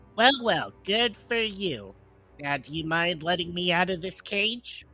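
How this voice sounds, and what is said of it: High-pitched squeaky character voice. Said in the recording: “It is high-pitched, a little squeaky”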